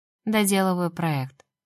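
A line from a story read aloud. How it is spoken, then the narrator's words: Sleepy speech. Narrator (Russian): сонно сказала Лера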